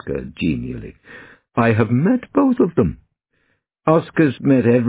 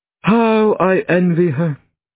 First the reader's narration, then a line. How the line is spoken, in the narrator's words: he sighed